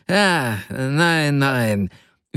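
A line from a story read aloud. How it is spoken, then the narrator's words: Hasty interruption. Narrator (German): fiel ihm Julian Mastakowitsch hastig ins Wort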